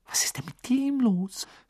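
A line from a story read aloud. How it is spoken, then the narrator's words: Whisper. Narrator (German): flüsterte Hermine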